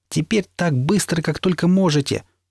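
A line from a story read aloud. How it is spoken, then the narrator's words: Yelling. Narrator (Russian): заорал я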